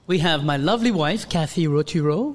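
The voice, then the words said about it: Announcer-style radio voice. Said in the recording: “I take my radio voice”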